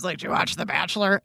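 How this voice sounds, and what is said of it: Imitates another person's voice. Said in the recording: “That was a terrible Bob impression. ... I thought that was spot on. I couldn't tell the difference.”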